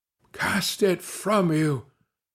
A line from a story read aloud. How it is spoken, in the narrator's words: exclaimed Gervase Helwyse, in an agony of entreaty